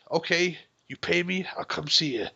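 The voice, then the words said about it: Poor John Malkovich impression. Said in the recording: “That's a terrible Malkovich impression.”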